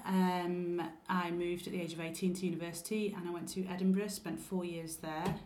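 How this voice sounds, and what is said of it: Mild Lancaster English accent. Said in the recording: “I have a slight Scottish inflection in my accent ... It's Lancaster accent. There are much, much stronger Lancaster accents than this one.”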